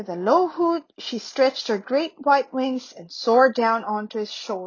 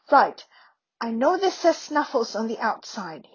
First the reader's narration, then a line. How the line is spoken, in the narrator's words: without knowing exactly why whispering